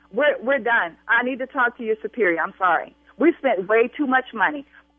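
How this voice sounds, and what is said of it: Raised, angry shouting voice. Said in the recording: “I will continue to raise my voice”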